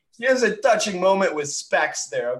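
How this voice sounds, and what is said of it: Hyped wannabe New Jersey accent. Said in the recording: “Oh my God, the accent's coming out. ... It's like some wannabe New Jersey accent.”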